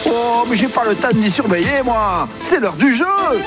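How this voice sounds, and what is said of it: Put-on southern French accent. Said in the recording (French): “fait un peu l'accent du Sud”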